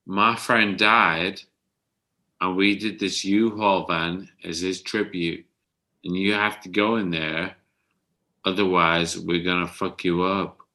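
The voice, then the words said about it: Put-on American accent. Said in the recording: “Was that an American accent?”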